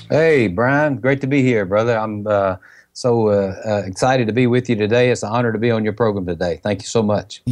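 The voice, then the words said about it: Country Mississippi Southern accent. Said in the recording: “this guy right here talks country ... he's from Mississippi”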